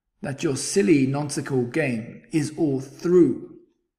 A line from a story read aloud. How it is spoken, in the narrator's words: snapped the big kangaroo